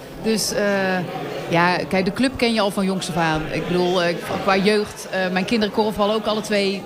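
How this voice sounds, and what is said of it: Brabant Dutch accent. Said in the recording (Dutch): “Ik hoor een Brabants accent.”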